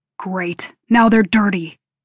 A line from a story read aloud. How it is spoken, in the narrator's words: he growls